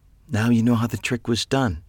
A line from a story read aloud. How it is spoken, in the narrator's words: said quietly